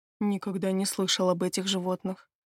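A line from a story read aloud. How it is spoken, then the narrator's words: Muttering. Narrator (Russian): пробормотал Стивен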